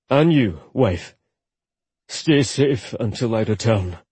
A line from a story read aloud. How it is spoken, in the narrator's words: he ordered huskily